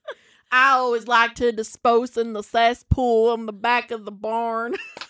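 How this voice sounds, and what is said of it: Put-on Southern American accent. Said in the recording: “you had to do a southern accent for that one.”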